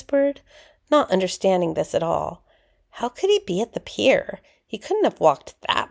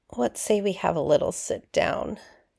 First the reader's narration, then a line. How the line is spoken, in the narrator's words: he uttered softly